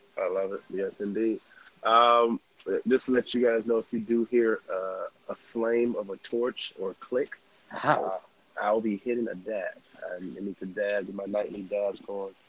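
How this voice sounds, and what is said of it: Sick, possibly congested voice. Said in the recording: “The reason my voice is sounding like this, the trip got out of control. Right now, sick. ... I'm also sick. I don't know if it's sinuses or...”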